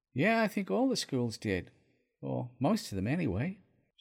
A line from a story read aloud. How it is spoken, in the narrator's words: she sighed